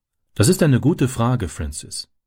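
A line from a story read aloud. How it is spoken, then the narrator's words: Plain. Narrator (German): sagte sie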